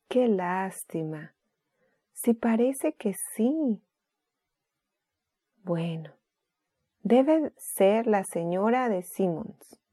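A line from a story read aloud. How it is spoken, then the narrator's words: Quiet. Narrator (Spanish): dijo Sara en voz baja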